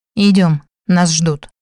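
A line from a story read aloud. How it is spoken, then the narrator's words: Cold, curt. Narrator (Russian): холодным тоном бросил Димарий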